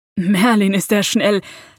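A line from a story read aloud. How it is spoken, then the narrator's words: Excited laughing. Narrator (German): lachte Harry aufgedreht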